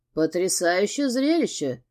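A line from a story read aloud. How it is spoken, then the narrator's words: Grumbled. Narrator (Russian): пробурчал Костас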